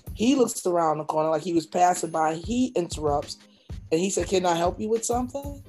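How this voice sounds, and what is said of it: Calm monotone speech. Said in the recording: “I didn't raise my voice. I was speaking as monotone as I'm speaking now.”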